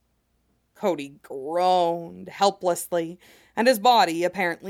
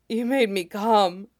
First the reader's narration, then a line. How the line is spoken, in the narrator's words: he gasped out